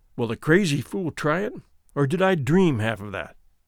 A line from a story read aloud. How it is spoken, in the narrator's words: he muttered to himself